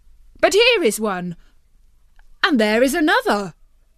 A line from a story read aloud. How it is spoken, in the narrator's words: they all exclaimed